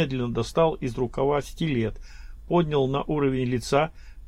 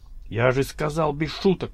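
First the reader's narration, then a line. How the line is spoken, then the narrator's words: Hissing. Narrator (Russian): прошипел Гаврилов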